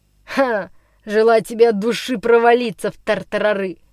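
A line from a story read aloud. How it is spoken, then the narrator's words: Shouted with malicious laughter. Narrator (Russian): Со злобным хохотом крикнул ему Никс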